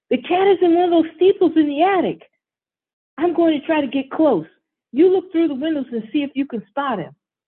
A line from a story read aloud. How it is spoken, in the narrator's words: Derek shouts